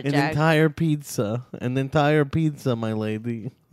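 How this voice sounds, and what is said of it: Put-on Russian accent. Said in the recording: “Why do you do like Russian accent? ... Why do you do like a Russian hey, accent”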